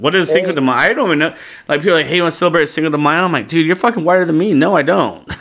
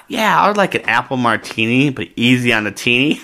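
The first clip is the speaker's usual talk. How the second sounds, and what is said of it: Imitates another person's voice. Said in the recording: “This is my impression of Cinco de Mayo... And that's my impression of you.”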